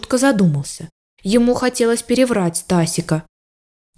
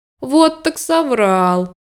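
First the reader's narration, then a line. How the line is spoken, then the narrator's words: Laughing. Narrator (Russian): рассмеялся Мишутка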